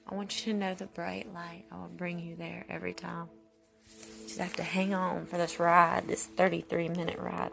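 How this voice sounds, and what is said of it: Tired, drained voice. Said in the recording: “I sound tired too, probably. ... drained, under the weather feeling”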